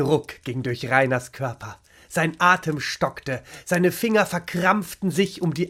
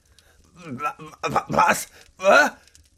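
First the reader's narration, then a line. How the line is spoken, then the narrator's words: Stammering. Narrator (German): stammelte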